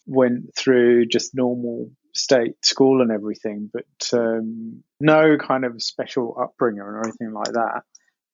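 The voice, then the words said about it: Essex English accent. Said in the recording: “I have this kind of Essex accent. Where we come from is pretty rough Essex”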